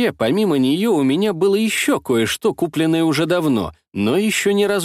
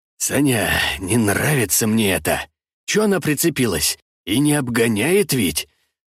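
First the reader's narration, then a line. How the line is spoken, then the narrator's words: Grumbling, lip bitten. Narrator (Russian): пробурчал Камыш, закусив губу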